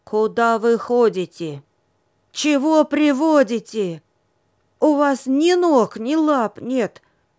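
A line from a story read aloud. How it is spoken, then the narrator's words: Angry, stern addition. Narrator (Russian): она сердито сверкнула глазами и строго добавила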